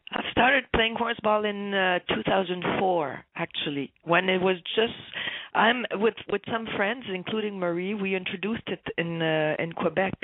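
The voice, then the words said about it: Rough, rocky voice. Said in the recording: “I have a big cold, so my voice is a bit rocky this morning ... My voice is not too good ... the sexy voice”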